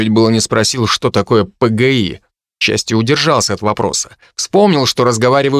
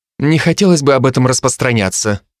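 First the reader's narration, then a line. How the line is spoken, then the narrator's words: Dry reply. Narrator (Russian): сухо ответил я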